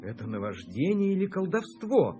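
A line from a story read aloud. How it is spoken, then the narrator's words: Exclaimed. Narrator (Russian): воскликнул пленник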